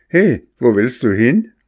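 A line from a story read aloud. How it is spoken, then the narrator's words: Old fisherman calling out. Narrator (German): rief ihm der alte Fischer zu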